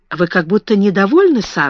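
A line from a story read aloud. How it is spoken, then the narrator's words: Plain. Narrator (Russian): сказала она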